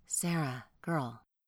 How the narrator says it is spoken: whisper

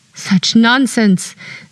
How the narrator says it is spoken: said Madame Félidée sharply

